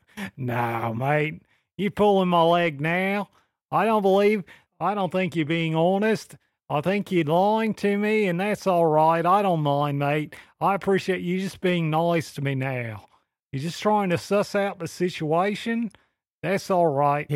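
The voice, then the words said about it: Put-on Australian accent, amateurish. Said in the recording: “you was a Bostonian and not an Australian ... this accent show of yours ... it's not bad accent for your first time”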